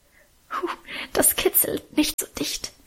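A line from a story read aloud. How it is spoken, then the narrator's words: Soft laughing protest. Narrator (German): wehrte sie leise lachend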